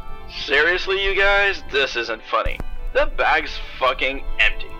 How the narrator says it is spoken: Rue yelled surprisingly

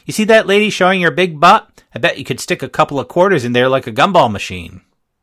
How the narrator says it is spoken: she said in a shout you could hear halfway across the lot

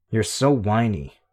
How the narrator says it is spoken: Rachel said

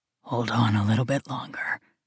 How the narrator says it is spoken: he whispers in my ear

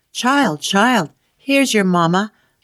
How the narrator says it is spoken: she called out

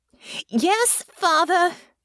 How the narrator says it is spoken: shouted back

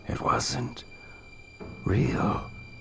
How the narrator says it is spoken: Counselor Hutton muttered to himself

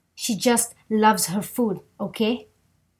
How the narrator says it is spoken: He shouted loudly

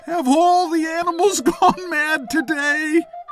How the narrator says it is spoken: Sweat was dripping from his forehead, and as though to no one, he suddenly screamed out

